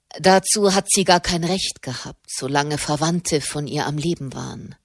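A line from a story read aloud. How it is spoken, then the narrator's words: Stern statement. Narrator (German): stellte Ser Ascanio Robaldi mit strenger Stimme fest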